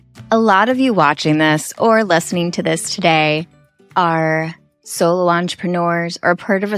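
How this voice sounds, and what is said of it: Usual voice. Nothing is said of it.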